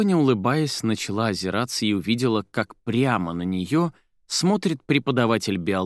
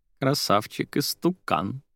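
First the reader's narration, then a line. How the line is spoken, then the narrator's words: Laughing. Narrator (Russian): сквозь смех произнесла Кристина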